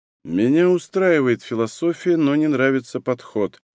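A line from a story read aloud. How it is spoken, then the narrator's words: Muttered. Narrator (Russian): пробормотал медикамент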